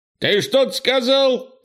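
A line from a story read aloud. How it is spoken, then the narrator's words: Shout. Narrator (Russian): крикнул Крис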